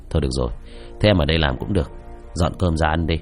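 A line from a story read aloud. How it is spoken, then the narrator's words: Resigned sigh. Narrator (Vietnamese): Lưu thở dài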